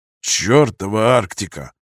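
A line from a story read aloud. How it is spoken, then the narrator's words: Angry muttering under breath. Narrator (Russian): злобно буркнул себе под нос человек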